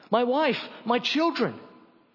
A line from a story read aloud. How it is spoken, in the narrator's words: One of the men who was chosen cried out